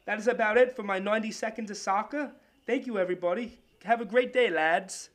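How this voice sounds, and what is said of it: Put-on British accent. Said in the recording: “I was trying to do a British accent thing for soccer”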